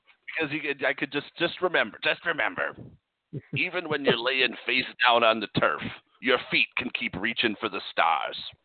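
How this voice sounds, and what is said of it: Gritty radio host impression. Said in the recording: “Casey Kasem impersonation ... Got a little too much grit in there. You sound like a Barney. ... I'm sick.”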